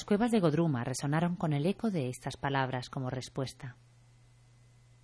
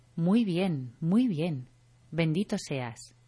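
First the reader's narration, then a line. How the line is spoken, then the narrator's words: Tearful exclamation in unison. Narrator (Spanish): Los Vaisnavas, cuyos ojos estaban llenos de lágrimas, exclamaron al unísono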